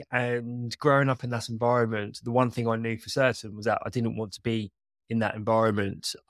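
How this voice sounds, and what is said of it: English accent. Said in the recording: “I'm based in England. I'm sure a lot of you can tell by my accent.”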